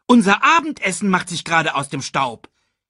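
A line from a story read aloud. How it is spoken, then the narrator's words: Called out. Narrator (German): rief Banzai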